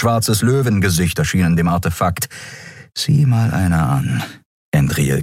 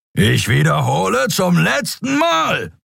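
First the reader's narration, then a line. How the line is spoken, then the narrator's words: Roar. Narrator (German): brüllte Thron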